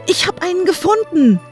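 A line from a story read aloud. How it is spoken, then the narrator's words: Shouted. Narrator (German): rief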